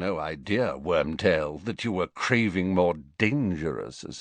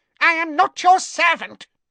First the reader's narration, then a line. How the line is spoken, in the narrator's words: he squeaked